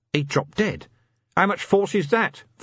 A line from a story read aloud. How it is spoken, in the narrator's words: Vimes shouted